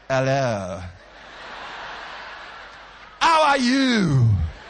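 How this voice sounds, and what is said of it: English with a put-on French accent. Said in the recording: “I speak English with a French accent ... Because I want to sound like my surroundings.”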